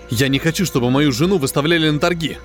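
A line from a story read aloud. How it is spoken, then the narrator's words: Sharp interruption. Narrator (Russian): резко прервал главного интенданта Крафт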